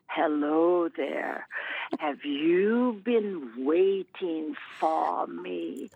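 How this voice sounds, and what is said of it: Spooky woman's voice. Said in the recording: “this spooky lady say ... I'm not sure that's a Missourian accent, but that's the way she talked”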